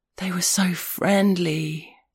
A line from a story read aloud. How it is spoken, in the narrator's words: he said, in a gasp of awestruck wonder, like a man sitting at the edge of the Grand Canyon at sunset